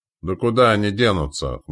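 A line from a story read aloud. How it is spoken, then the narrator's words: Snorting. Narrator (Russian): хмыкнул Митяй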